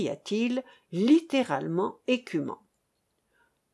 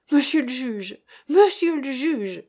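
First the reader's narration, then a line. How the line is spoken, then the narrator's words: Exclaimed. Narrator (French): s'écria Jean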